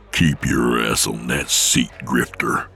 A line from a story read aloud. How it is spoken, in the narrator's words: Nick growled